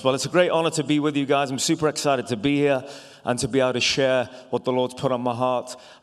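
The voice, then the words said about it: Non-American accent. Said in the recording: “I'm not a local with my funny accent ... you're the guys with the accent”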